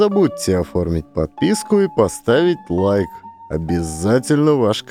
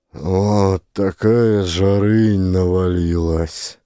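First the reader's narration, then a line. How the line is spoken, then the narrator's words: Exhausted, weary tone. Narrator (Russian): Изнемогающим тоном повторяет староста в охраме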